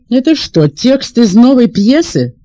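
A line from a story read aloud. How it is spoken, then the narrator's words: Commanding motherly question. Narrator (Russian): спросила мама властным голосом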